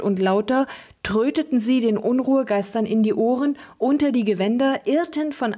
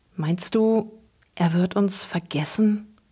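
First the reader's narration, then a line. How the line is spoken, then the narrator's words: Barely audible whisper. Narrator (German): wisperte Luke kaum hörbar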